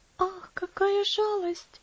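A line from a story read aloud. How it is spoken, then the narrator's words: Sighing. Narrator (Russian): вздохнула Элси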